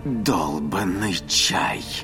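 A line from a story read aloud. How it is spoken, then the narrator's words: Hissed angrily. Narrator (Russian): прошипел Фарис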